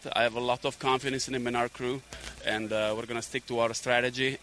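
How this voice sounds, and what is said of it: Italian accent. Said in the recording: “that accent ... A native of Como, Italy.”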